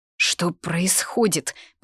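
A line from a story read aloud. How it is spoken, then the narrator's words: Mumbled. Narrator (Russian): пробормотала Лита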